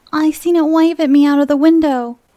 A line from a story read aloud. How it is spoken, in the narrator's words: wailed the boy